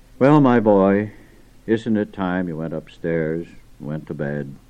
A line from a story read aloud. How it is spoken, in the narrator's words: he quietly said